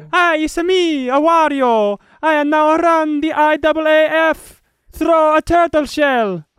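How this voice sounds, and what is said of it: High-pitched mock Italian Wario voice. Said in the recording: “I'm going to probably do an offensive accent here. That's not accurate at all ... It wasn't even Italian. It was just high-pitched. The Wario”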